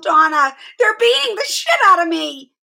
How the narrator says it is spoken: she yelled

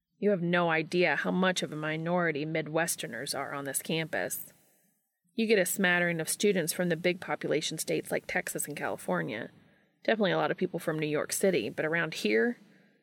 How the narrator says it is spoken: snorted

